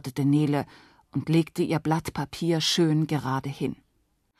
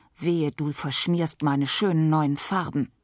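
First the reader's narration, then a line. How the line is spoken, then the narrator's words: Hissed. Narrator (German): Natalie zischte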